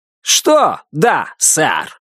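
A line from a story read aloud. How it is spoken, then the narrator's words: Bark. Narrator (Russian): рявкнул на него Буллард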